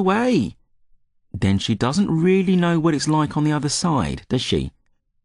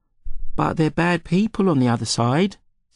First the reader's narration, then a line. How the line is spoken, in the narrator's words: Steve said